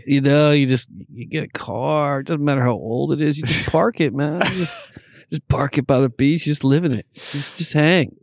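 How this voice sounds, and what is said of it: Laid-back San Diego beach accent. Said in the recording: “we just, you know, start talking with that accent, bro... It's the beach community.”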